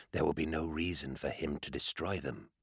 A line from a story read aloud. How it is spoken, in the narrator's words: Cirrus said, more softly now